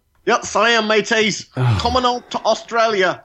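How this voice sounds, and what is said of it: Put-on Australian accent. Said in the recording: “I think you'll be stopped at customs if you try that on at the airport.”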